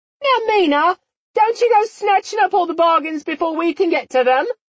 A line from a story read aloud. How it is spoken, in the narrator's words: one of them called out